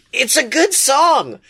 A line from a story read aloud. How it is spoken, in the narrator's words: Blake yells back